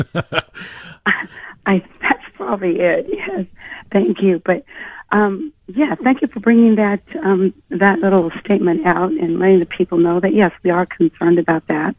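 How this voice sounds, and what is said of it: Hoarse, strained voice. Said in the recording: “A little laryngitis ... A little overstress on the vocal cords.”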